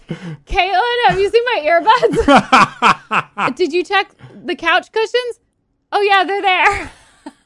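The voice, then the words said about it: Impression of co-host searching for something. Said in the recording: “Do your best impression of me looking for something I lost. ... It's accurate.”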